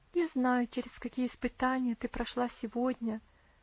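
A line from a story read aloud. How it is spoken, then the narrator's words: Tender, caring tone. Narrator (Russian): продолжала она тем же нежным, заботливым тоном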